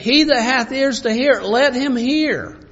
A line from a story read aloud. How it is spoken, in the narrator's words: Jesus cried, and he said